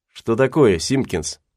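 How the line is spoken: Plain question. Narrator (Russian): спросил Гатлинг

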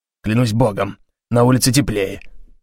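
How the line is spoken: Grumbling. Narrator (Russian): пробурчал он

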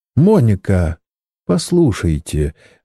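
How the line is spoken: Soft, gentle. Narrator (Russian): начал он мягко

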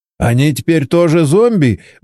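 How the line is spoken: Nervous laugh. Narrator (Russian): Борис нервно хохотнул

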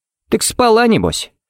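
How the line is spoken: Casual familiar snort. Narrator (Russian): фыркнул Харри, будто они с Эйденом были лучшими приятелями, обсуждали девчонок за кружкой пива

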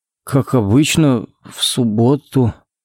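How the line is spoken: Uncertain drawl. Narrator (Russian): неуверенно протянул Коннорс

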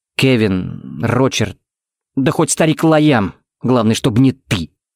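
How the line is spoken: Through gritted teeth. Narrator (Russian): процедил Тикс

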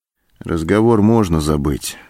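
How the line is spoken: Dejected voice. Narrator (Russian): упавшим голосом сказал Антон

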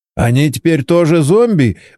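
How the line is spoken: Nervous chuckle. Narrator (Russian): Борис нервно хохотнул

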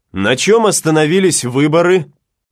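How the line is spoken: Loud question. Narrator (Russian): громко спросил Гатлинг

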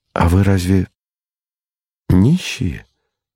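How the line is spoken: Dejected question. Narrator (Russian): спросил я упавшим голосом

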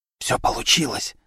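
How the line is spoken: Whispered reply. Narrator (Russian): также шепотом ответила Вера

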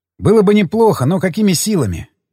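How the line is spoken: Sigh. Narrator (Russian): вздохнул я

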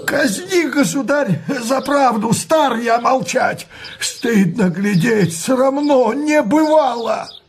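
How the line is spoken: Trembling shout, old nobleman. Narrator (Russian): Иной боярин, наберясь смелости, затрясет бородой и крикнет дрожащим голосом

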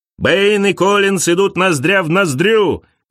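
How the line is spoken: Commentator shouting. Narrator (Russian): кричал комментатор

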